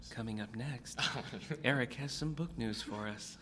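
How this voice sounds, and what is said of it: NPR radio announcer voice. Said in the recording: “you have to say it in an NPR voice”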